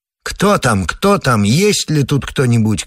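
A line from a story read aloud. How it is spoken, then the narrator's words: Shouting over each other into darkness. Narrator (Russian): кричали на перерыв во тьму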